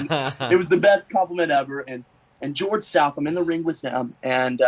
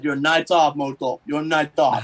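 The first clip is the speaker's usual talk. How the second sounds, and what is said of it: Imitates heavy foreign accent. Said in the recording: “Barb has that as a heavy accent.”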